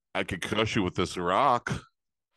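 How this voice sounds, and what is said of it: Imitates another person's voice. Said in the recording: “Andre the Giant as an impersonation. From what's that movie? ... Princess Bride.”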